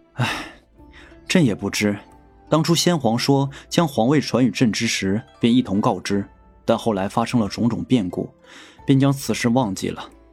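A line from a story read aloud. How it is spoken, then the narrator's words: Sighing. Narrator (Chinese): 东方玉叹息道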